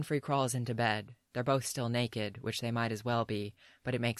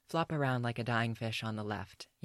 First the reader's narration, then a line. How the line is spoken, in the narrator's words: Yen says evenly